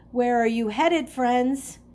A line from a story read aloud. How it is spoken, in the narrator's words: the man called out to them